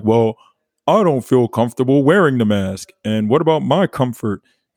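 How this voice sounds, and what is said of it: Mocking imitation of a complaining person. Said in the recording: “that was a good impersonation”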